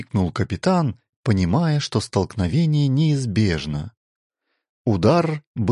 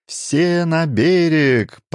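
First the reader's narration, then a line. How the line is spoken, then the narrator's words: Shout. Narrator (Russian): прокричал Харан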